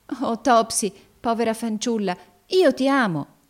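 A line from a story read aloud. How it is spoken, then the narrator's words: Sudden burst of tenderness. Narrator (Italian): esclamò Evangelina con subitaneo scoppio di tenerezza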